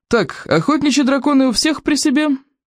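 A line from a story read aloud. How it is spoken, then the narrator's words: Loud bark. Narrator (Russian): гаркнул Плевака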